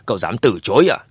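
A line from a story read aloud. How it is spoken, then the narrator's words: Angry. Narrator (Vietnamese): tức giận nói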